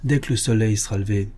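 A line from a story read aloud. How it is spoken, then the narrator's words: Plain. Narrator (French): répondit Jack Carter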